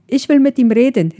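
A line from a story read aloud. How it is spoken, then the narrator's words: Distant call. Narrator (German): rief Carly aus dem Hintergrund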